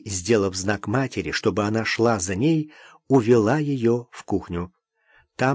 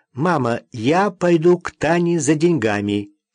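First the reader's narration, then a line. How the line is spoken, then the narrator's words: Loud. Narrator (Russian): Наташа громко сказала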